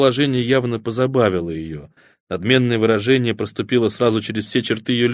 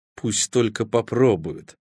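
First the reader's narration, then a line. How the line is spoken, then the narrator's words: Through gritted teeth. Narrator (Russian): процедила она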